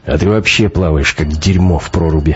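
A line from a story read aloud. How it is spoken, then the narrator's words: Offended grumble. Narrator (Russian): буркнул обидевшийся на критику Шибанов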